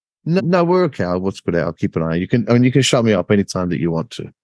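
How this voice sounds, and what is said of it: English accent. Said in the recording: “I'll do it in my original English accent”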